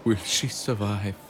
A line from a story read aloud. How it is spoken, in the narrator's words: Gino sighed deeply through his nose